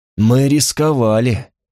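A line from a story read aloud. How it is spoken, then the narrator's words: Through gritted teeth. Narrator (Russian): сказал сквозь зубы Легиар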